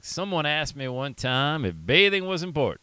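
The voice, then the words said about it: Southern accent imitating Zig Ziglar. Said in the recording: “that's my southern accent, Zig”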